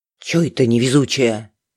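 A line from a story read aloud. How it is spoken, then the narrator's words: Quiet reply. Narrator (Russian): Так же тихо откликнулась Галина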